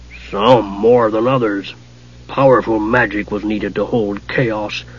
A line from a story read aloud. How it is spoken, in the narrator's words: growled Sargonus, a tall, horned god